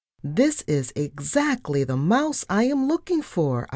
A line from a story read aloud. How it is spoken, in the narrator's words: I cried